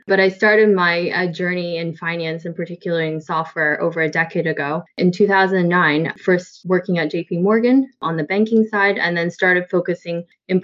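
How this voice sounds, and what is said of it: Canadian English accent. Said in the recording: “I'm actually Canadian, in case you're wondering where the accent is from”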